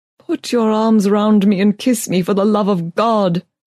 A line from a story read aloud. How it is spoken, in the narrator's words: he cried